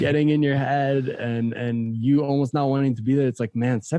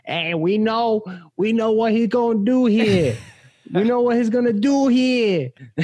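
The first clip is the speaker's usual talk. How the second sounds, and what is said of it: Yelling in an Italian accent. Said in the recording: “with his Italian accent yelling”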